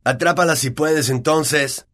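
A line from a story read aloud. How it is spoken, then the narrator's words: Shout. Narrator (Spanish): gritó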